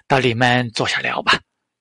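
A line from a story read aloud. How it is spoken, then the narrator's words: Smiling. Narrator (Chinese): 铃木俊二继续微笑着，就说道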